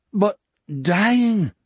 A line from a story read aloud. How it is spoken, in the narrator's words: Anders persisted, his eyes nakedly pleading now